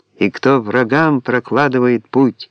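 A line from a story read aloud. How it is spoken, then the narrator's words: Actress's ringing, booming slip. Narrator (Russian): актриса оговорилась и звонким голосом на весь цирк грянула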